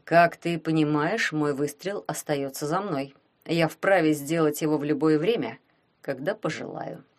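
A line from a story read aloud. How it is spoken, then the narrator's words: Quiet. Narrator (Russian): негромко сказал Глеб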